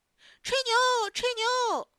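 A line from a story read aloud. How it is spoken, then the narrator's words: Children clamoring. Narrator (Chinese): 另外几个小朋友也嚷嚷起来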